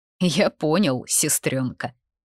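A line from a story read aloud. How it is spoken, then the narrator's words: Mocking. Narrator (Russian): отозвался насмешливо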